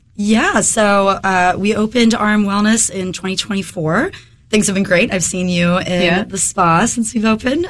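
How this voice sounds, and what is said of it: Slightly hoarse voice. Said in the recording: “I'm getting over a head cold right now ... if my voice is a little hoarse today”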